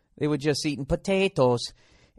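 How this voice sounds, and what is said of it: Put-on Irish accent. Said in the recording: “That was an Irish accent. ... I'm all over the map here.”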